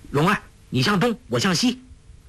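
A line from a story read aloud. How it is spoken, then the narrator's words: Anxious call. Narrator (Chinese): 郭靖心急，叫道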